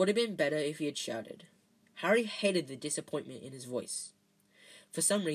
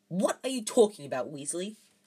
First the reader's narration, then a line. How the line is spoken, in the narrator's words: barked Professor McGonagall